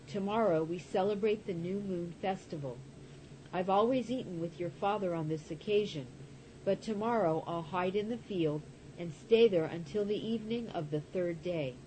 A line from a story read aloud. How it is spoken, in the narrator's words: David exclaimed